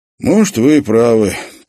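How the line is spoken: Sigh. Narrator (Russian): Павлыш вздохнул

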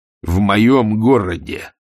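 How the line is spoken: Growl. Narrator (Russian): рыкнул он

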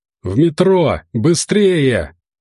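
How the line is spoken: Shouting. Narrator (Russian): кричал Дэвид

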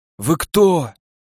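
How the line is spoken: Wheezing man on ground. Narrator (Russian): просипел атомщик, валяясь на земле

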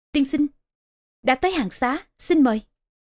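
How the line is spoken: Respectful, smiling woman. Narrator (Vietnamese): Trương phu nhân cung kính, mỉm cười nói

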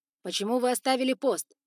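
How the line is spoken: Booming voice. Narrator (Russian): прогремел

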